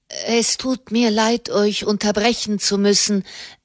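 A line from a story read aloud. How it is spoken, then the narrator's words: Stammering young man. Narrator (German): stammelte der junge Mensch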